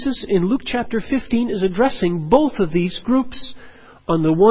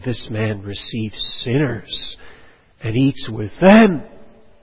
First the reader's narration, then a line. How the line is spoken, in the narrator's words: the Pharisees and scribes murmured, saying